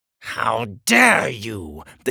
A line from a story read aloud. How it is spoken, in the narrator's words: the king spat